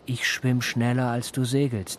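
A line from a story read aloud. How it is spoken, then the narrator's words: Roaring reply. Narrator (German): Worauf der brüllend erwiderte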